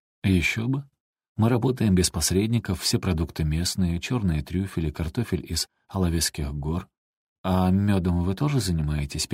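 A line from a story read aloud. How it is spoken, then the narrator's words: Indifferent interrupting tone. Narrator (Russian): перебила его Эстибалис самым безразличным тоном, на который была способна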